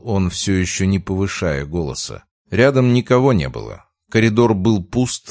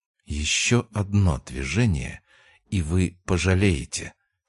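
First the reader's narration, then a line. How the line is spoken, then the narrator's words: Quiet but harsh. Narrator (Russian): сказала тихо, но жестко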